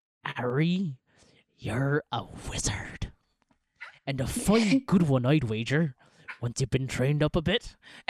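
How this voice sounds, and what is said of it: Impression of Hagrid. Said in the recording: “my Hagrid impersonation”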